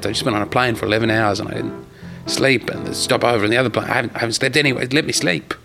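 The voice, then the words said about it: Speaks with a noticeable accent. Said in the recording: “when I say day rate with my accent, it sounds a lot like I'm saying, I want to do a date rape”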